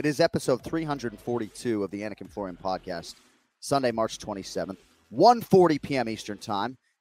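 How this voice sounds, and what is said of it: Voice sounds rough and unwell. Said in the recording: “My voice sounds terrible today”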